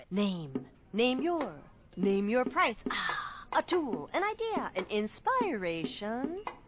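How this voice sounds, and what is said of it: Beat poet voice. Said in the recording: “my impression of a beat poet”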